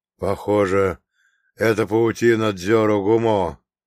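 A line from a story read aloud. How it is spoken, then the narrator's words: Hoarse, breathless. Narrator (Russian): хрипло произнес отец Евлампий, тяжело дыша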